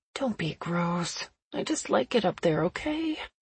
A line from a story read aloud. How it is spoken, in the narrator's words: I mumbled